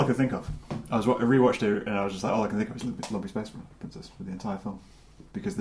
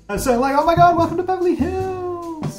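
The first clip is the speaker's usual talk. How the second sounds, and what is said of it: Imitates a cartoon character's voice. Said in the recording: “my lumpy space princess impression ... the dialogue is just very, oh my god”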